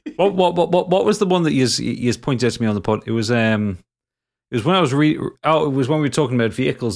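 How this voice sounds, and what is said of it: Speaks with a noticeable accent. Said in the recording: “Your accent... you all take the piss out of my accent far too much... picked up my accent”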